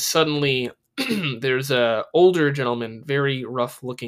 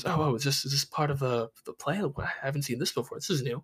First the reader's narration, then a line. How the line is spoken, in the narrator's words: everyone kind of whispers